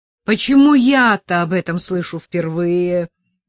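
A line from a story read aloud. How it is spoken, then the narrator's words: Roared. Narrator (Russian): взревел Степан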